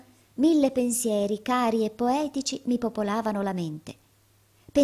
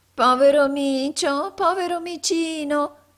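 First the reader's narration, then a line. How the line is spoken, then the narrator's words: Angry nasal shout. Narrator (Italian): gridò tutta irata una vecchia ragazza dalla voce nasale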